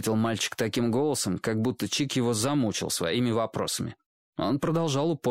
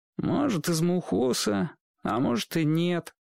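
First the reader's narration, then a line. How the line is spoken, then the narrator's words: Glum boy's reply. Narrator (Russian): уныло ответил мальчик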